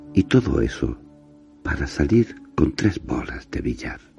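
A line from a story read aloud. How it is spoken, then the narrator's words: Sighing. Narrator (Spanish): agregó con un suspiro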